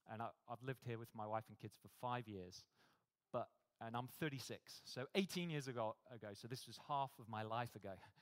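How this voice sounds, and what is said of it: British accent. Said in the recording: “You probably tell from my accent, I'm not from here, I'm from the UK.”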